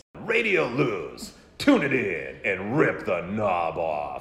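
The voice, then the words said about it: Rock radio DJ voice. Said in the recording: “amateur rock DJ voice... you got a great rock voice... DJ oh, voice... that sounded really good”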